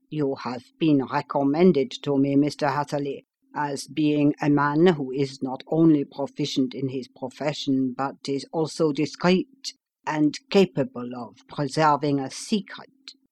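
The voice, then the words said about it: Slight German accent. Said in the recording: “said he, with something of a German accent”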